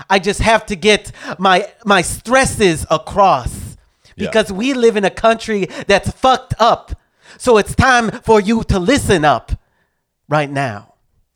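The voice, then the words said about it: Rhythmic slam-poetry delivery, hissed S's. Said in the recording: “when I talk like this, when I do the thing with my S's ... some sort of accent or black voice ... it's a rhythmic. Poetry is rhythmic”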